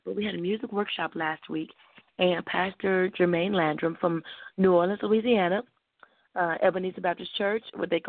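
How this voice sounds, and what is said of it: Slightly hoarse voice. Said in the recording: “we had a musical workshop last week. That's why I'm a little bit hoarse right now still.”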